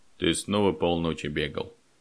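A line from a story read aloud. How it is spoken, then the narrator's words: Quiet question. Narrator (Russian): негромко спросил Федор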